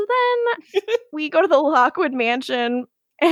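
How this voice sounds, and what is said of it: Usual voice. Nothing is said of it.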